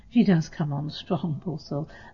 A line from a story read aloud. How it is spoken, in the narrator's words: laughed Katie